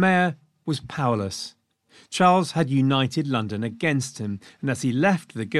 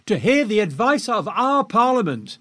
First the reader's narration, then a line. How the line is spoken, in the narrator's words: they shouted back